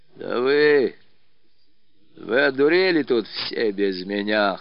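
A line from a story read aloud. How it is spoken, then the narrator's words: Hoarse, incredulous shout. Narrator (Russian): хрипло крикнул он, все еще не веря собственным ушам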